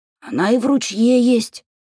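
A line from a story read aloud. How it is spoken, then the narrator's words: Hoarse objection. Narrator (Russian): хрипло возразила я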